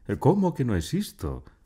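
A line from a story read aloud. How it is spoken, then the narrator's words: Exclaiming. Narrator (Spanish): exclamó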